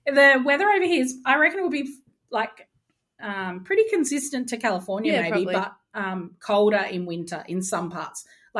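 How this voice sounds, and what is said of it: Australian accent. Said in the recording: “Why is your accent so darn sexy?... Aussie”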